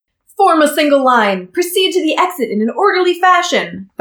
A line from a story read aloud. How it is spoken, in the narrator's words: thundered Prince Brassica